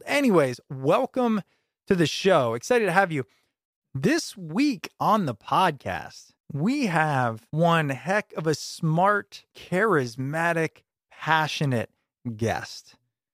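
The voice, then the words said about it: Deeper, congested head-cold voice. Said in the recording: “here with a cold ... if the bass in my voice sounds deeper, it's because I got a head cold”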